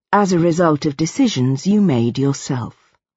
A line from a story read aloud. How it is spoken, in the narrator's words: I said, in an even tone